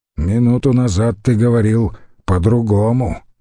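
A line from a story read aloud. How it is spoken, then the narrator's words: Grumbled. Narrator (Russian): проворчал Битургон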